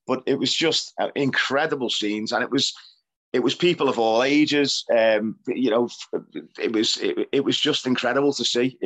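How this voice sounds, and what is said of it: Hoarse, wrecked voice. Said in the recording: “my voice is a bit wrecked. It's still wrecked from it, from breathing in blue smoke”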